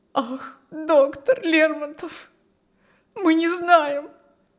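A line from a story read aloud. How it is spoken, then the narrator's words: Tearful reply. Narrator (Russian): ответила пани Прибовская сквозь слезы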